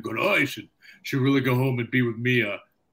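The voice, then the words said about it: Imitates another person's voice. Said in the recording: “I guess everybody sounds the same, him and Dom now. My impersonations are horrible.”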